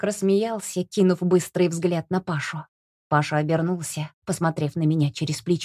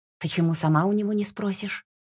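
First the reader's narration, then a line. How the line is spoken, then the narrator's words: Disappointed, hurt whisper. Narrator (Russian): Я разочарованно вздохнула и с обидой в голосе шепнула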